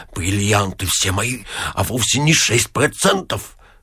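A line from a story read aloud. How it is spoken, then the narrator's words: Sullen muttering. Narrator (Russian): Ипполит Матвеевич насупился и, бормоча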